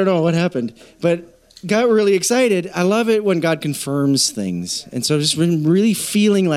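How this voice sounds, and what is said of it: Usual voice. Nothing is said of it.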